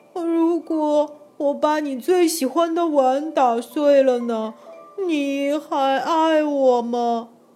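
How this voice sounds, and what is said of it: Soft, quiet child's voice. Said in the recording (Chinese): “小声”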